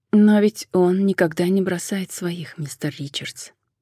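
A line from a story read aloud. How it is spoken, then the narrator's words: Soft question. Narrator (Russian): мягко спросила она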